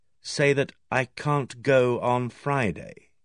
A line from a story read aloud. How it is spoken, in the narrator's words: I repeated slowly